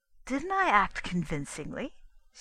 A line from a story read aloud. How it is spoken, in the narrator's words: she said brightly